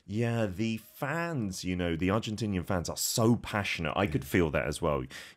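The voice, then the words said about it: English accent. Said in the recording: “You might tell from my accent, my home country is the UK, is England.”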